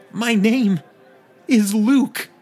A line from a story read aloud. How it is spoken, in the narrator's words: cried